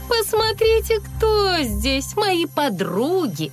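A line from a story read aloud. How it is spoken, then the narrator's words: Snide, smirking. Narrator (Russian): ехидно усмехаясь, сказала Стелла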